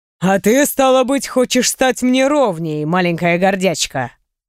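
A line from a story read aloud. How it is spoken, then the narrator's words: Light, interested, growling. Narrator (Russian): Он проговорил это слишком легко, заинтересованно и с рычащими нотками в голосе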